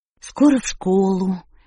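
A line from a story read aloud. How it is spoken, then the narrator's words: Coaxing, enticing tone. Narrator (Russian): вкрадчиво сказала Шерил, словно суля лакомство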